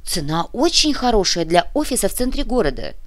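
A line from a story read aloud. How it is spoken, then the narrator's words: Grumbling. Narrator (Russian): проворчал Биджар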